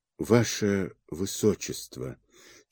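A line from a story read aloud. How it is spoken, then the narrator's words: Barely audible dreamy whisper. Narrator (Russian): чуть слышно, словно во сне, прошептала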